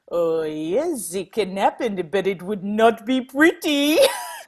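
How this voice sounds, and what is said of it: Thick French accent. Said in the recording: “in this really thick French accent”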